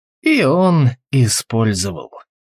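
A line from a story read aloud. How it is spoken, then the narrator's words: Gloomy. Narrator (Russian): мрачно сказал Алвис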